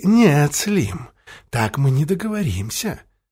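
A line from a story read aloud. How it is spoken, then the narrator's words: Soft interruption. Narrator (Russian): мягко перебил бандита Бабарский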